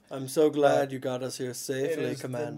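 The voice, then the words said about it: Imitates a film character's voice. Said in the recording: “That's my impression of... Amidala when she talks like Amidala ... It was a little too much personality.”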